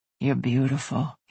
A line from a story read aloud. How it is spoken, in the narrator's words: he murmured